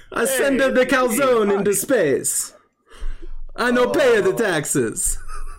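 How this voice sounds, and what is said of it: Exaggerated fake Italian accent. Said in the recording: “it's okay to do an Italian accent.”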